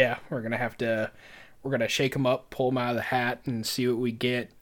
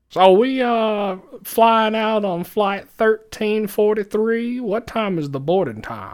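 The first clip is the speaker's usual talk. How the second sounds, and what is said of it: Old man country voice. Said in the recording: “Old man country voice... I'm just going to do old man voice... our accent is old man”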